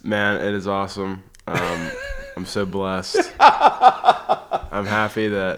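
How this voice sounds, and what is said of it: Canned press-conference style delivery. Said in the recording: “You sound like a coach at a press conference.”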